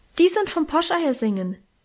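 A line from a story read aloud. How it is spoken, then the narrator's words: Helpful call. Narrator (German): rief ich hilfsbereit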